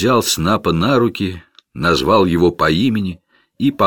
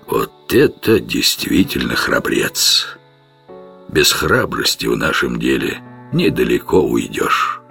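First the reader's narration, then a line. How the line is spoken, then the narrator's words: Muttered. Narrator (Russian): пробормотал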